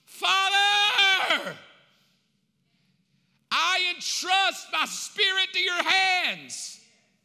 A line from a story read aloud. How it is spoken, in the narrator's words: in a moment of pain, he shouts